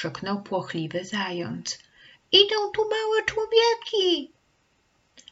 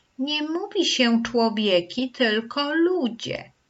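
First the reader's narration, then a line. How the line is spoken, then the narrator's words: Calm correction while chewing. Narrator (Polish): poprawiła gołania, spokojnie przeżuwając młode pędy drzew iglastych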